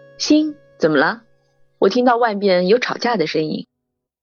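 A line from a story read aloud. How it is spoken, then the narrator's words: Soft female asking. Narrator (Chinese): 一女龙，轻声问道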